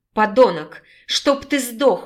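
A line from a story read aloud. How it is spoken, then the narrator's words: Tearful shouting girl. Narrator (Russian): уже не сдерживая слезы, прокричала девушка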